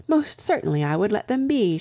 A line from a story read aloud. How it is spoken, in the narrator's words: she cried